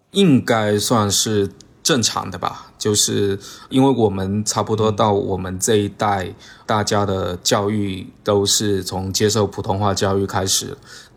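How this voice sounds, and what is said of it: Fujian-accented Mandarin, southern. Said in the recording (Chinese): “在我看来，我这种北方佬看来就是一个南方佬啊 ... 我觉得我们的口音，用我们的这边的俗话讲，就是地瓜腔 ... 多多少少也会带一点我们这边当地的那个口音嘛。福建人不是 H 跟 F 不分吗”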